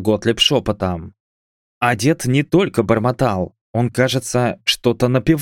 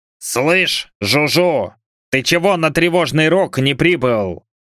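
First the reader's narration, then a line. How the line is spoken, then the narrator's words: Barked into ear. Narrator (Russian): Гаркнул в ухо пасечнику Готлиб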